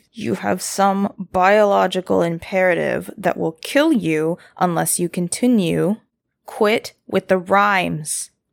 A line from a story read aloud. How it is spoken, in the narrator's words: said through gritted teeth